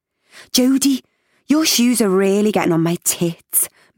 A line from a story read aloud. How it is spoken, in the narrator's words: moaned our Joey